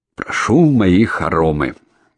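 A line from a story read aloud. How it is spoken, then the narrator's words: Solemn. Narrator (Russian): торжественно проговорил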